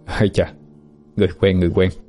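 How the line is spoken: Muttering to self. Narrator (Vietnamese): Phượng Thánh tự lẩm bẩm

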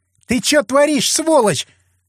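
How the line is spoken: Shrill squeal. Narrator (Russian): Взвизгнула Оксана

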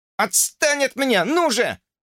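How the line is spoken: Fierce yelling. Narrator (Russian): ожесточенно орал Джорджи, вырываясь

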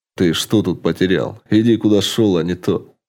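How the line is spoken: Snorting. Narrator (Russian): Фыркнул Карти

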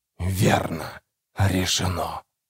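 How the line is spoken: Near whisper. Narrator (Russian): почти прошептал голос с дерева

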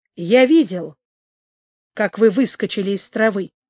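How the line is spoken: Quiet reply. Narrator (Russian): тихо отозвался Пятик

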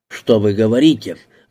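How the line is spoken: Barked loudly. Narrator (Russian): гаркнул Теппер

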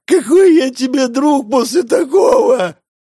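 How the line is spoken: Young man wailing. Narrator (Russian): взвыл парень

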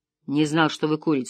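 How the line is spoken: Low confiding voice. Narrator (Russian): сказал полицейский низким доверительным голосом

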